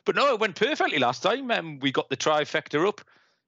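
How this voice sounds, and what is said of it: Noticeable accent. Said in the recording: “that bloke with a silly accent”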